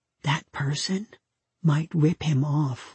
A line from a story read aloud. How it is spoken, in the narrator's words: I whispered